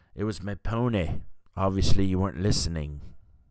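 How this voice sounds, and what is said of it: Bad Irish accent, Colin Farrell. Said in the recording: “That's a terrible Irish accent”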